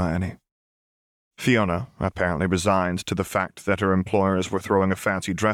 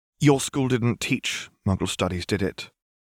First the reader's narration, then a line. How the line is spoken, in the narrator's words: asked coldly